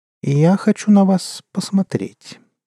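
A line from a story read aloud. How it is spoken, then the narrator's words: Calm. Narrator (Russian): спокойно сказала кошка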